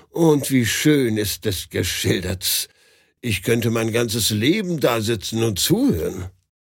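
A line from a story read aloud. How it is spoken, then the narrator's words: Sigh. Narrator (German): seufzte Pedagogin auf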